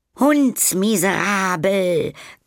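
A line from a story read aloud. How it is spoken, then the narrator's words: Shrill shriek. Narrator (German): kreischte Frau Schreckster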